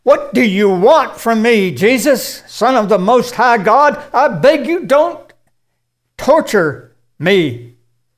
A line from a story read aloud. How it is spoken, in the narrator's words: he cried out, shouting at the top of his voice